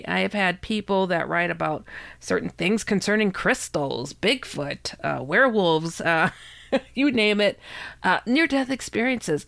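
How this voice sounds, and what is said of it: Sick, congested-sounding voice. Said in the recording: “you can hear in my voice, I'm a little bit sick. I'm overcoming some bad cooties”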